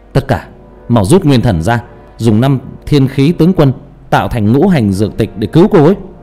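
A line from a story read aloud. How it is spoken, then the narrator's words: Loud shout. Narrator (Vietnamese): Kỷ Đan hét lớn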